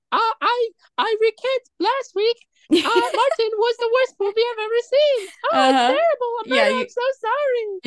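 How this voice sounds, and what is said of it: Imitates another person's voice. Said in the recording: “that was just me making up your voice ... that's how good my impression is.”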